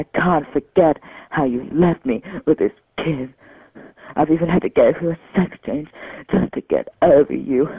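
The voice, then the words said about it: British accent. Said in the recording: “that was sort of a UK accent... British accent”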